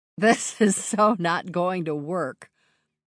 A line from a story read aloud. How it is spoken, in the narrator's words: I said with a laugh